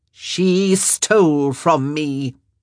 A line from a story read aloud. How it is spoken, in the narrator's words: she said in a deadly low voice